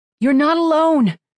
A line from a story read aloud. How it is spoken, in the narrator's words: Kira shouted into the storm